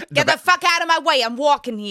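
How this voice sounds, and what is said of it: Exaggerated put-on New York accent. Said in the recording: “a garbage performative ... Accent.”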